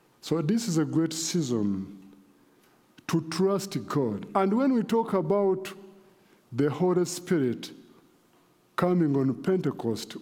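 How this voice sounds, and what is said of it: Speaks with a noticeable accent. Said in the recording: “if you cannot follow my accent very well”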